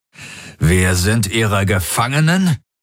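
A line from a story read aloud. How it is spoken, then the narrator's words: Growled. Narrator (German): knurrte Darajos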